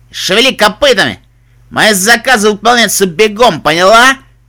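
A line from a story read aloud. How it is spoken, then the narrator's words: Barked. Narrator (Russian): она рявкнула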